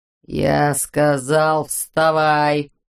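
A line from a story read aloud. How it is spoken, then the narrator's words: Gritted-teeth mutter. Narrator (Russian): процедил толстяк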